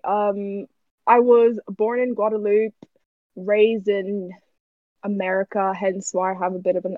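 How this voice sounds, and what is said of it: Strong American accent. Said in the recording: “your American accent is very strong”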